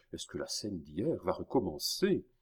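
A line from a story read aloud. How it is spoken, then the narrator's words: Murmuring. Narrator (French): murmura Richelieu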